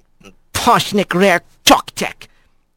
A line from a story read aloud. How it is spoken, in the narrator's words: Rat muttered